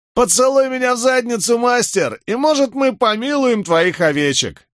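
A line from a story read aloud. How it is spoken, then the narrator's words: Shouted. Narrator (Russian): крикнул один из них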